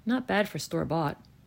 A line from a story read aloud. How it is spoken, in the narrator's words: with zero hesitation mumble